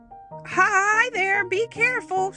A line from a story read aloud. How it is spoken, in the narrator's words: shouted the Scarecrow to the crows